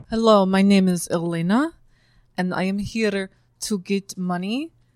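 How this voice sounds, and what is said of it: Put-on Russian accent. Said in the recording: “That's a beautiful accent you have. What is it? ... I am from Russia.”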